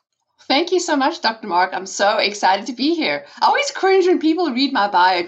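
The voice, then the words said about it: South African accent. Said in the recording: “in the South African accent”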